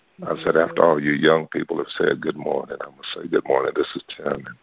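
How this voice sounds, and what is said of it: Hoarse, fading voice. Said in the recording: “I'm losing my voice, but I hope you were able to hear me, and it wasn't too bad of a struggle to understand what I was saying.”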